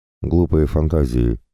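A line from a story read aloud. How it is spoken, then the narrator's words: Mutter. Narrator (Russian): пробормотала она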